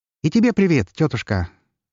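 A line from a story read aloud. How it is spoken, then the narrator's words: Cheerful, sarcastic greeting. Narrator (Russian): Весело, но не без сарказма поприветствовал ее Лар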